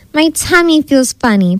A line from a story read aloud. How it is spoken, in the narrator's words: Polly whimpered